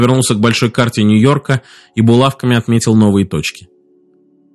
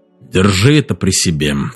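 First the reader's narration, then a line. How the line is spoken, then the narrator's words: Low voice. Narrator (Russian): сказал низким голосом Мэрин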